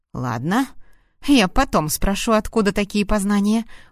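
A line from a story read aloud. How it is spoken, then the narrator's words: Smirking. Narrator (Russian): ухмыльнулся он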